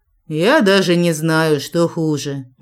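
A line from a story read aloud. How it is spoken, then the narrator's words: Gloomy hoarse wheeze. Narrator (Russian): мрачно просипел ефрейтор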